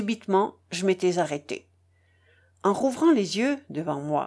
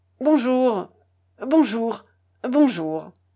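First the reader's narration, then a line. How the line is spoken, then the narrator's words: Grumbled. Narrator (French): grommela-t-il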